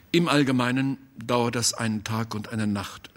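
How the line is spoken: Plain. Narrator (German): sagte Busbeck

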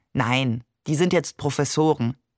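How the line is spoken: Plain. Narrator (German): sagte Maman

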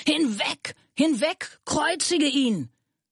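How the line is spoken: Crowd shouting. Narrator (German): schrien

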